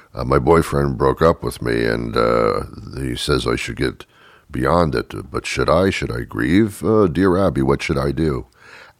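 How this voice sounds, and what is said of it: Deep voice for a woman letter-writer. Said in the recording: “I'm doing the deep voice. That's the woman's voice.”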